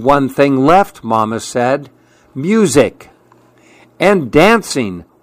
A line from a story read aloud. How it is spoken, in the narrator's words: Willow exclaimed